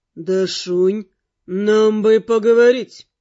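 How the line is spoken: Icy, through gritted teeth. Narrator (Russian): Леденючим голосом процедил Рыжий

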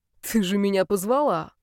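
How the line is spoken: Young man's snort. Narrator (Russian): фыркнул парень

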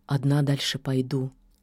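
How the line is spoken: Quiet, witch. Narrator (Russian): тихо сказала ведьма

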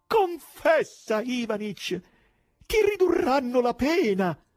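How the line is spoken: Exclaimed. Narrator (Italian): alzando le braccia al cielo, esclamò

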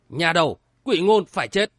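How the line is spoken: Alarmed shout. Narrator (Vietnamese): Mật Tông Khalada thất kinh, quát lớn

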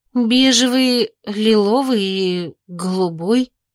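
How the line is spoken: Uncertain. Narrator (Russian): неуверенно ответила я

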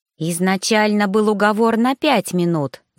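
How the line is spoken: Hissing female dragon. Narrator (Russian): зашипела драконица

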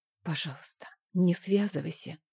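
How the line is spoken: Whisper. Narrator (Russian): прошептала я

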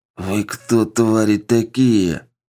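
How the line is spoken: Lisping through split lips. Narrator (Russian): Невольно шепелявя разбитыми губами, Кайседо

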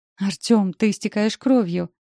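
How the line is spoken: Frightened exclamation. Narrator (Russian): восклицаю испуганно

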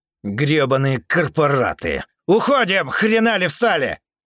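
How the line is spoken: Khan shouting. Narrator (Russian): прокричал хан

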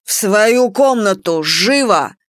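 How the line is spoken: Growl. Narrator (Russian): рыкнул Нара нам обеим

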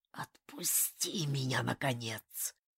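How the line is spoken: Whisper from a skull. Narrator (Russian): Вылетает шепот из оскаленных челюстей черепа

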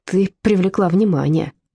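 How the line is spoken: Grumbled. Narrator (Russian): проворчала Зильке

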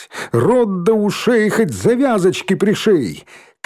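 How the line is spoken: Shout. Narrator (Russian): крикнула Попову

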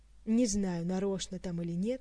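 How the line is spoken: Tired reply. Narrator (Russian): устало откликнулся Кантер

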